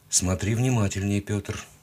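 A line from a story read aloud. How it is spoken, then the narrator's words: Quiet, curt. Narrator (Russian): тихо бросил Солодов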